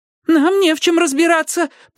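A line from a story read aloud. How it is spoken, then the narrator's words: Squeaky. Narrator (Russian): пропищал я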